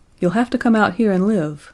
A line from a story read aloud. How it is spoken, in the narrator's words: said Geoffrey